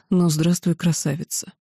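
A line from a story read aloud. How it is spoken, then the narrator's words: Close whisper. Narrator (Russian): Он наклонившись ближе, шептал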